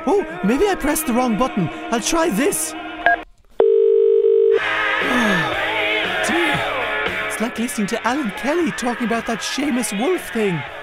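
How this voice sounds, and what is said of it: Irish accent. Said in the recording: “I couldn't understand your accent. ... You sound Irish. ... try to sound less Irish.”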